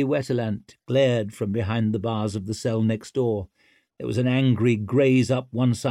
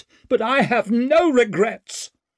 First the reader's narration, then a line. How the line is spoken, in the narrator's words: she snapped